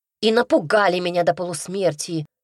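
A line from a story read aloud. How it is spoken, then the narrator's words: Barking snap. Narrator (Russian): рявкнула я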